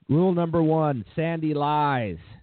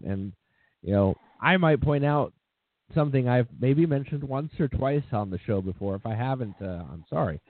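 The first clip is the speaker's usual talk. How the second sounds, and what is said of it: Sarcastic delivery. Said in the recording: “I'm saying that very sarcastically.”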